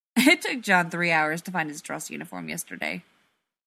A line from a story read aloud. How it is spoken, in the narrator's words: Rodney snorts